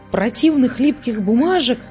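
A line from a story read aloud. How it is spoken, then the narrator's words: Exclaimed. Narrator (Russian): воскликнул Хемуль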